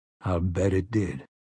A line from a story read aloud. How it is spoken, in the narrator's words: Roland said grimly